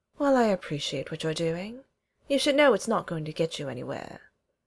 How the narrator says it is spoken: Vex says

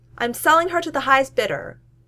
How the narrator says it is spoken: Tony yells after him

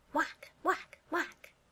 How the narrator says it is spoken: Barry whispers excitedly

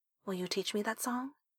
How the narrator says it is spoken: Wei Wuxian said softly

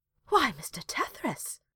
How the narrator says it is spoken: she gasped

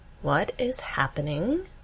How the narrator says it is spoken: Amy asks slowly

